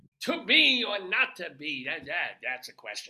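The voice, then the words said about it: Put-on theatrical accent. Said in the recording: “if I come on with this accent, being as natural and honest as I can”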